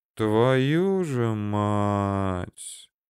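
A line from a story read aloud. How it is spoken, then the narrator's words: Upset, forced out. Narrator (Russian): Расстроенно выдавил из себя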